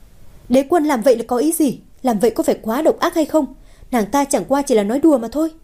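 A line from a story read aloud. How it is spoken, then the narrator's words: Shocked shrill shout. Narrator (Vietnamese): Thiếu nữ kia thét lên, nói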